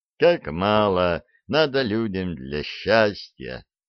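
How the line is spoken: Sighing. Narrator (Russian): вздохнул Арчибальд

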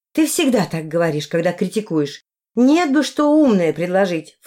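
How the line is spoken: Snorted, then exclaimed. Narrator (Russian): фыркнула я и воскликнула

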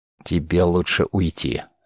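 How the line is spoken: Quiet. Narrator (Russian): тихо сказал он

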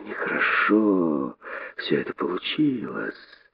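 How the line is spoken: Hissing young snake. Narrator (Russian): прошипел юный удав

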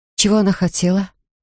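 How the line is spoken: Forced out. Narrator (Russian): выдавила

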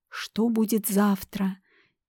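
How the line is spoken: Quiet speech. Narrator (Russian): тихо проговорила

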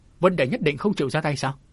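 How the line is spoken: Sullen resentful. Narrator (Vietnamese): Trúc Linh Cô hậm hực nói

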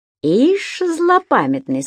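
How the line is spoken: Plain. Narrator (Russian): сказал Болотников

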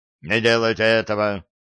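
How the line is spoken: Sudden bark. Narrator (Russian): он внезапно рявкнул

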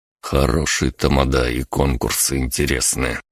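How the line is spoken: Muttered. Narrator (Russian): пробормотал я

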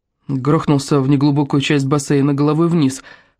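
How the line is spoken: Plain. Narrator (Russian): ответил тот

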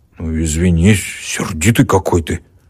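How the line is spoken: Embarrassed grumbling. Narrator (Russian): проворчал смущенный ямщик

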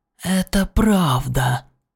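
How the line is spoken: Hiss. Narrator (Russian): прошипел Врил

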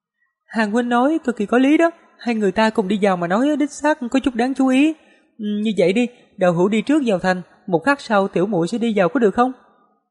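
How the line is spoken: Smiling. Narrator (Vietnamese): Tiêm Tiêm suy đoán rồi mỉm cười nói

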